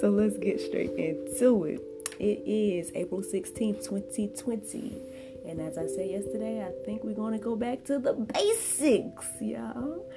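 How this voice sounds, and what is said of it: Scratchy, slightly hoarse voice. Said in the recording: “My voice is feeling a little scratchy on my throat. My throat's feeling a little scratchy right now.”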